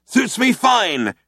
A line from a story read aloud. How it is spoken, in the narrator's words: shouted Zaphod back